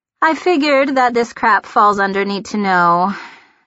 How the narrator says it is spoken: Emily sighed

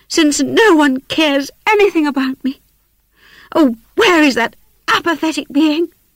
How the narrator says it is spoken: she exclaimed

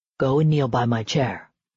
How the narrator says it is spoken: Damon said in a low voice

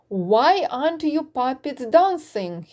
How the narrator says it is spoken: he shouted

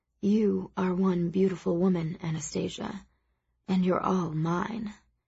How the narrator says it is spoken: he murmurs

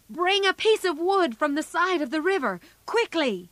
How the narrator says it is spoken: shouted

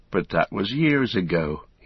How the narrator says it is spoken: he sighed

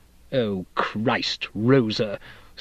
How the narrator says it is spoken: Steep said, his voice oozing contempt

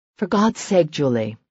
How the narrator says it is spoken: Serena groaned

